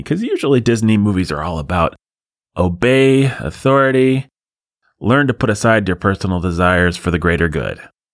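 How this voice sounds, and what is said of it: Sarcastic delivery. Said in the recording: “I'm being sarcastic, of course.”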